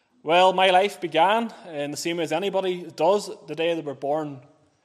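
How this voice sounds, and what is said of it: Northern Irish County Armagh accent. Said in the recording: “you maybe can detect from the accent, maybe not, but I'm from County Armagh”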